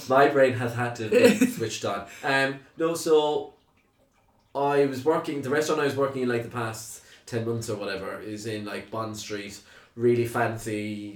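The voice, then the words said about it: Strong Cork Irish accent. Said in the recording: “you have a very strong Cork accent”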